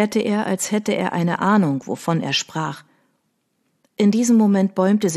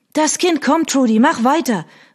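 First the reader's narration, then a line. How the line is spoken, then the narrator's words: Called out. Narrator (German): rief Hattie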